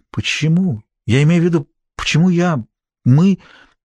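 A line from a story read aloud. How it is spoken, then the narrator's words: Trembling voice. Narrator (Russian): Сьюзен спросила дрожащим голосом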